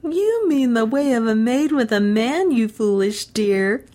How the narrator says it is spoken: laughed Alice

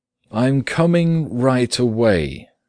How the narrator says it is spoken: said Gregor, slowly and deliberately

